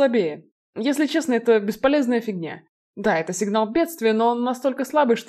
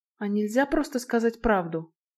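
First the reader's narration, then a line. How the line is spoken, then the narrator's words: Quiet question. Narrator (Russian): тихо поинтересовалась Наэль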